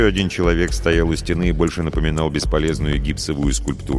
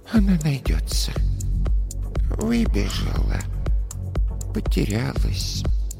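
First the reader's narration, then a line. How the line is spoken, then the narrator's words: Quiet soothing murmur. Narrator (Russian): Та тихо приговаривала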